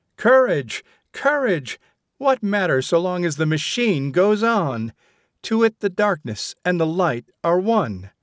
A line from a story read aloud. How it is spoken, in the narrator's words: heroic the tone of the lecturer as he cried